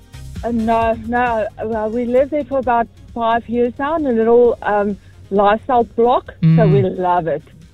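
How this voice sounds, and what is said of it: Strong South African accent. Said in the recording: “quite a strong South African accent ... still very strong”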